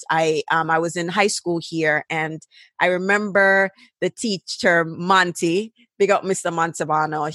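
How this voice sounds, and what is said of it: Jamaican accent mixing British and American. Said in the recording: “over pronunciation ... between the patois and the twanging ... over pronouncing because I'm pronouncing it between the Jamaican, the British way and trying to do the American way. And so it don't come out quite right”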